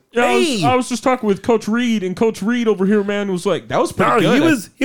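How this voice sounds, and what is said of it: High-pitched imitation of another person's voice. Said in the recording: “do your Patrick Mahomes voice ... it's not high enough. It's got to be higher”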